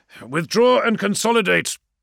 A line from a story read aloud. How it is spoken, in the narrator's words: he barked into the feed